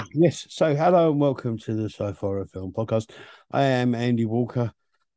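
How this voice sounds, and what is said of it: Hoarse, croaky, strained voice. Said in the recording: “You sound like you're trying to impersonate the Mysteron from Captain Scarlet ... I have a large log in my throat. I was going to say frog, but it's worse than that”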